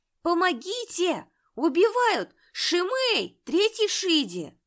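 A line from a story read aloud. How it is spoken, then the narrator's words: Screaming. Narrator (Russian): кричал Лиюнь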